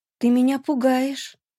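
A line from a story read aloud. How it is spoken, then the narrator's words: Uncertain, smiling. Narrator (Russian): Неуверенно, улыбаясь, произнесла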